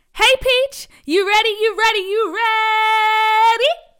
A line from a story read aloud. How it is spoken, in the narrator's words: Dee Dee, Peach's best friend, screamed from across the parking lot